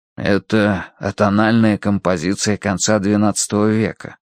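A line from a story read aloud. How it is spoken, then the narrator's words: Whispered reply. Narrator (Russian): прошептал в ответ Данворти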